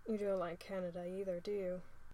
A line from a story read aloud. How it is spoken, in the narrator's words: Will asks sleepily